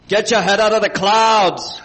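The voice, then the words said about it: Arnold Schwarzenegger impression. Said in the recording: “who can do the best Schwarzenegger voice”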